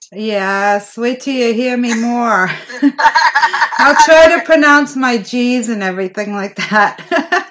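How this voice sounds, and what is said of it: Slight East Coast accent. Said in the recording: “is that a little East Coast accent I detect?”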